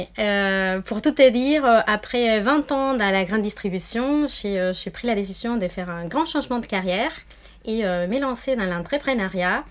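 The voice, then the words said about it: Argentine Spanish accent in French. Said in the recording (French): “je suis euh, argentine, d'où mon petit accent qui vient du sud, très au sud”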